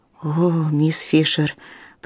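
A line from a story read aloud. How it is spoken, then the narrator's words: Muffled whisper into shoulder. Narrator (Russian): прошептала, уткнувшись головой ей в плечо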